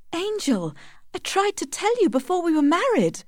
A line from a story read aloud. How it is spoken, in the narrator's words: cried Tess